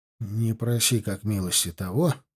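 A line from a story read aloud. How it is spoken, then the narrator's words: Muttered. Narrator (Russian): пробормотал Брайдер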